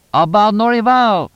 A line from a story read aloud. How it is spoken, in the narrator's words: shouted Tonino